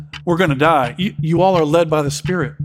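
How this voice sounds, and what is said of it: Put-on Southern accent. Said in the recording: “I want to talk with a Southern accent for some reason, funny”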